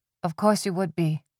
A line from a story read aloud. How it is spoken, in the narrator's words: she murmured